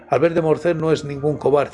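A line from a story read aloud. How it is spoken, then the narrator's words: Plain. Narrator (Spanish): dijo Montecristo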